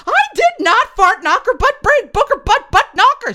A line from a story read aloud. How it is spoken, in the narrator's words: shrieked Dave